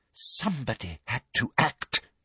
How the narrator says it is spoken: breathed Umbridge

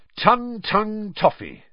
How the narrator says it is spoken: said Fred brightly

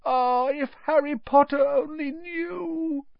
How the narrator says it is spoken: Dobby groaned, more tears dripping

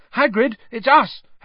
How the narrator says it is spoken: Harry shouted

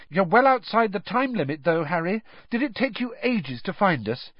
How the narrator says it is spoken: Hermione impatiently said

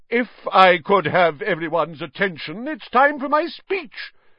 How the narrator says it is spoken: said Nearly Headless Nick loudly

